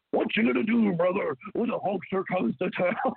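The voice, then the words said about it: Hulk Hogan impression. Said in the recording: “doing the Hogan voice”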